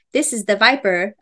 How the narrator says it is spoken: a man said

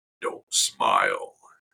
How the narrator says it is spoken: he growled

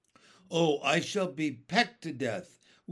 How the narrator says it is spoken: wailed the poor earthworm

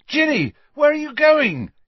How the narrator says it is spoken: yelled Harry

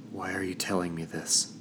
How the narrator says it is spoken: She groaned

